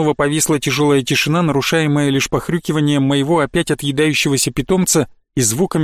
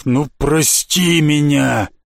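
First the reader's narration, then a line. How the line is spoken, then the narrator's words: Breaking, shouted out. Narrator (Russian): Винрол не выдержал первым, наконец, выкрикнув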